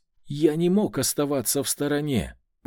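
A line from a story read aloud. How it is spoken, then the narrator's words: Grandiose exclamation. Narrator (Russian): пафосно воскликнул баронет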